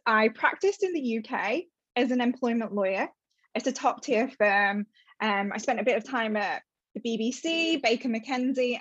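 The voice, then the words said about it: British accent. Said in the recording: “as you can tell from the accent, I am from the UK”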